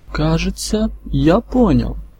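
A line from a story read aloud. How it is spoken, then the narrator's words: Thoughtful. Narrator (Russian): задумчиво проговорил Иван Иванович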